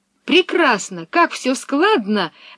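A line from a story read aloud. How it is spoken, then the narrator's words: Pleased exclamation. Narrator (Russian): воскликнула Пеппи, очень довольная стихами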